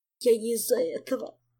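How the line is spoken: Young elf sobbing. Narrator (Russian): всхлипнул юный эльф

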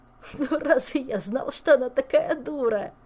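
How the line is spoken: Moan. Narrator (Russian): простонал он

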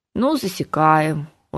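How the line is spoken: Glum agreement. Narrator (Russian): уныло согласился левая рука

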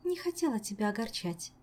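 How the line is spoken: Sad, smiling. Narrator (Russian): грустно улыбнулась нимфа

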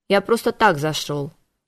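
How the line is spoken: Curt, clipped. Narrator (Russian): отрывисто произнес демон

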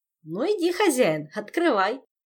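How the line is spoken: Giggling. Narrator (Russian): хихикнул Жак

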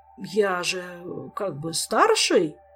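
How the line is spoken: Flustered mumble. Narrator (Russian): промямлил надзиратель, огорошенный таким напором

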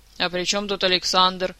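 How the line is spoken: Grumbling. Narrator (Russian): проворчал Элмар

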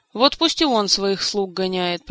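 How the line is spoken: Grumbled. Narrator (Russian): проворчал Элмар

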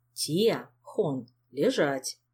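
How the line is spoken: Quiet firm command. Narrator (Russian): Негромко, но внушительно скомандовал он

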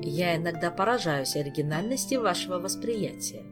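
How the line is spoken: Quiet flat voice from behind. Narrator (Russian): негромко произнес за спиной у Ольги тихий невыразительный голос

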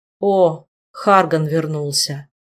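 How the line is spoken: Tired, unsurprised statement. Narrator (Russian): Устало и без особого удивления констатировал Кайден

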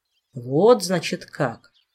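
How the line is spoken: Thoughtful. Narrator (Russian): задумчиво

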